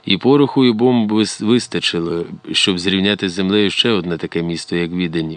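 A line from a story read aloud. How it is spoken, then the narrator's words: Plain. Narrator (Ukrainian): відповів Арсен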